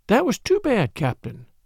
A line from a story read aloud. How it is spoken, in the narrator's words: said she, speaking very gently